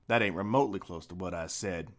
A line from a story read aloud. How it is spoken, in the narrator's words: muttered Viekko